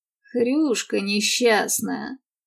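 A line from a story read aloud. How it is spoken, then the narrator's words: Grumbling mutter. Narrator (Russian): пробурчал Мэтт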